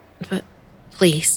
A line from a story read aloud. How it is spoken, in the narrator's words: I stammered, not wanting that anywhere near my mouth, but fear of antagonizing Merrill overriding my gag reflex